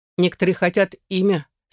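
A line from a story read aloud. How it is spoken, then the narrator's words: Thoughtful. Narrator (Russian): сообщила задумчиво бритоголовая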